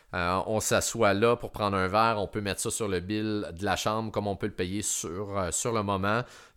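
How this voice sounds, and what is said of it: Québécois French accent. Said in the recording (French): “par notre accent, sûrement réalise qu'on provient du Québec”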